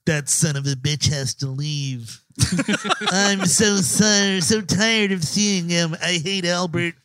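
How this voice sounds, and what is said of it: Poor imitation of another person's voice. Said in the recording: “that impression ... It is pretty bad. It's not good. I got to tell you, that does not sound like Dan.”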